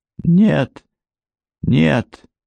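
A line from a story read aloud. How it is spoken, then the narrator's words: Barely audible mumbling. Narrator (Russian): еле слышно бормотала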